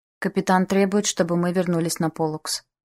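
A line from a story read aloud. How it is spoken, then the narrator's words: Calm. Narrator (Russian): спокойно сказал мне Иосиф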